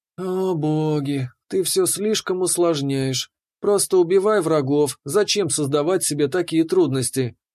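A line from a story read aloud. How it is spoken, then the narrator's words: Sighing. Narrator (Russian): Вздохнув фея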